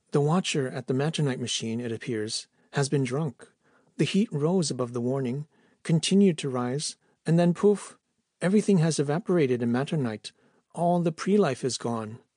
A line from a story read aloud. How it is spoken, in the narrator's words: said calmly